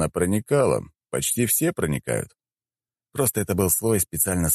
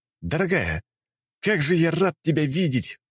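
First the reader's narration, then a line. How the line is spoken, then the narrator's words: Exclaiming. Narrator (Russian): воскликнул я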